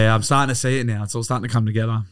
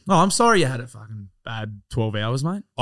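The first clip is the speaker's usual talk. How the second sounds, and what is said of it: Sarcastic tone. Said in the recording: “I was being sarcastic.”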